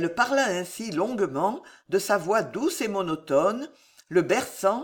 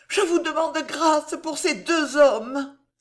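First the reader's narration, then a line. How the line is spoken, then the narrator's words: Moved exclamation. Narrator (French): s'écria Marie touchée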